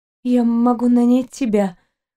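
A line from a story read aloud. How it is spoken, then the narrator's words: Trembling voice. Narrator (Russian): дрожащим голосом проговорила девушка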